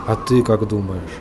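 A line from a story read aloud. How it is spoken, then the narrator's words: Muttered reply. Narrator (Russian): пробормотал в ответ Генри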